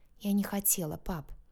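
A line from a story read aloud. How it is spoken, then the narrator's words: Near whisper. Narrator (Russian): почти прошептала я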